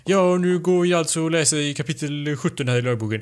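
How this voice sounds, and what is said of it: Imitates a teacher reading aloud. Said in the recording (Swedish): “härma den då ... jag antar att man läser med sån röst, att läraren står där framme och bara”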